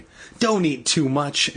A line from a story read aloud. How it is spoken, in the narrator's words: she cried